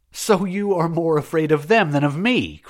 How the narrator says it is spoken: cried the Sufet

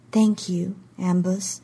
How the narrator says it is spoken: she said softly

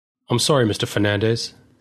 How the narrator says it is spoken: said Mr

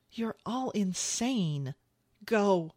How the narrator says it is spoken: he pleaded with her, shaking his head in frustration

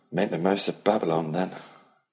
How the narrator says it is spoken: Ellie said dryly

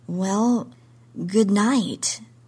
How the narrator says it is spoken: I said weakly

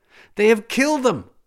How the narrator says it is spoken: which were screamed in Balearic

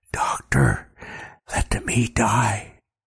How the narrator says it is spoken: The young man whispers in my ear

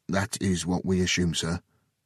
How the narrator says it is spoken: Harris said

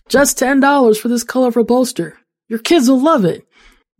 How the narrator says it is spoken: shouts

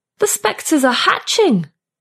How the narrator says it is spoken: Lotta shouts

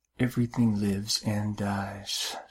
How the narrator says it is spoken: she whispered

